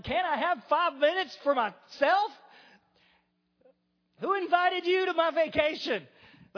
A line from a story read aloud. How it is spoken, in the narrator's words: get irritated, and we would yell